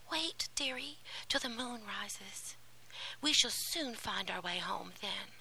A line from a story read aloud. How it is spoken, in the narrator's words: Hansel put his arms around her and whispered